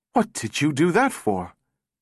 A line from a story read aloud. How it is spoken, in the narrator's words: Powell gasped